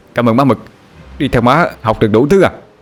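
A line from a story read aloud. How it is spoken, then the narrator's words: Gleeful shout. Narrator (Vietnamese): Anh Hùng la lên thống khoái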